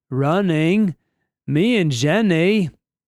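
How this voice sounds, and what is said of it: Forrest Gump impression. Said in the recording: “That's the second day in a row I've done a Forrest Gump impersonation.”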